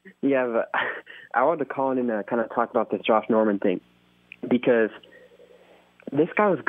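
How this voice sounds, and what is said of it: Usual voice. Nothing is said of it.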